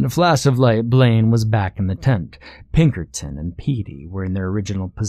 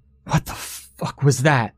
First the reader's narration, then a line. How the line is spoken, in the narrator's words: Blaine gasped